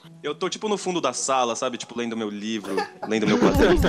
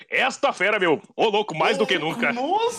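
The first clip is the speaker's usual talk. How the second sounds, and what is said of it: Impression of Faustão. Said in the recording (Portuguese): “imitação do Faustão ... o ... imita”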